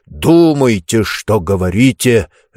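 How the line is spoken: Barking. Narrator (Russian): рявкнул Чемберлин

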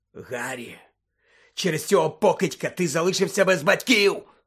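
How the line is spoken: Hoarse rasp. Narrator (Ukrainian): прохрипів Блек

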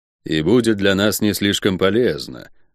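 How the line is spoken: Gloomy. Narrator (Russian): мрачно закончил Чума

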